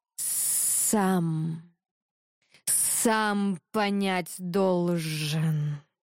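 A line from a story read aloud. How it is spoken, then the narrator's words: Hissing snake. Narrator (Russian): прошипел змей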